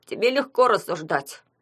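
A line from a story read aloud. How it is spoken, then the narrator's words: Grumbling soaked son. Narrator (Russian): проворчал промокший сын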